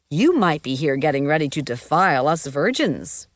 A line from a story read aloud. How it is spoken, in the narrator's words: Shawnee said